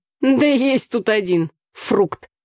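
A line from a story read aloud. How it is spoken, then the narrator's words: Snorting. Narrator (Russian): фыркнула Таня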